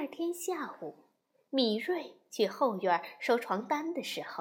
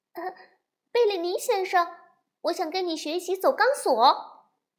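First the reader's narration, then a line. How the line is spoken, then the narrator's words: Nervous, brave call. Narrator (Chinese): 米瑞鼓足了勇气，开口喊道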